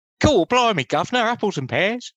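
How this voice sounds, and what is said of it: Put-on Cockney London accent. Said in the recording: “Can you do a London accent?”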